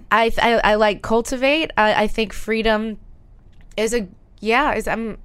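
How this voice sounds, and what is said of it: Tearful voice, crying while laughing. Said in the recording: “why am I getting emotional? ... I'm crying and laughing at the same time. ... what are the tears?”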